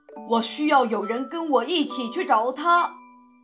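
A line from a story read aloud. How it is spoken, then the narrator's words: Loud shout. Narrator (Chinese): 汉斯高声喊道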